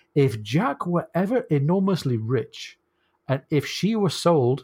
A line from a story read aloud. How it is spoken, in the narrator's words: said the surprise